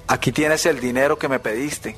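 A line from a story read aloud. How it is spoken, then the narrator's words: Plain. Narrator (Spanish): dijo su padre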